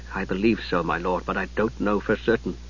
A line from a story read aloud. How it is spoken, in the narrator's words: Palin hesitated, then said quietly